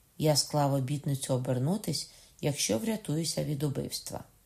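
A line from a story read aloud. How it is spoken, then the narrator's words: Serious, polite tone. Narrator (Ukrainian): тим самим серйозним ввічливим тоном сказав далі Ламоль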